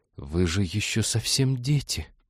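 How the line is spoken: Whisper. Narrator (Russian): прошептала она

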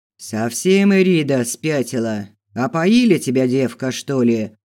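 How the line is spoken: Stranger's deep bark. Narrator (Russian): басом рявкнул незнакомец

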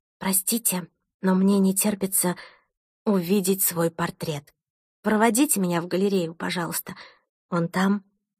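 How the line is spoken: Whispered in ear. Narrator (Russian): шепнула Томасу на ухо

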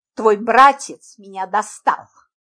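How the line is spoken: Angry. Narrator (Russian): Зло произнес

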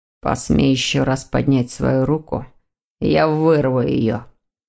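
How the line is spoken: Grim, through clenched teeth. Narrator (Russian): мрачно процедил сквозь зубы Дамиан

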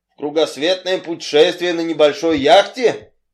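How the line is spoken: Incredulous exclamation. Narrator (Russian): не веря своим ушам, воскликнул мистер Ривз

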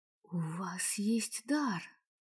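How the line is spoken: Whisper. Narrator (Russian): прошептала я

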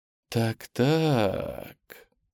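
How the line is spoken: Snake-like cooing. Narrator (Russian): со змеиной ласковостью проворковал латыш

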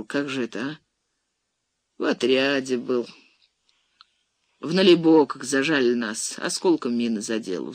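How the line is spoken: Sigh. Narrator (Russian): вздохнул Васюков

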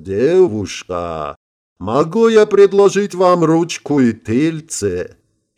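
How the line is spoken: Slightly nasal. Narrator (Russian): слегка загнусавив, добавил

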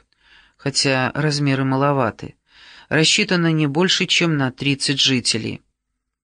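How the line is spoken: Whisper. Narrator (Russian): шепнул он Коуве и Ани Фонг

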